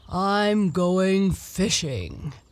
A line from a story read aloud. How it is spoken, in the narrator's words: said he in his deep, grumbly, rumbly voice to no one in particular